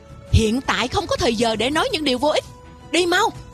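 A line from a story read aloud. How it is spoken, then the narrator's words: Angry speech. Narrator (Vietnamese): Tống đại nhân giận dữ nói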